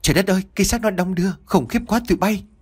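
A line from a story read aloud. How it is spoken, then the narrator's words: Panicked cry. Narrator (Vietnamese): tiếng của Ba Heo hốt hoảng kêu lên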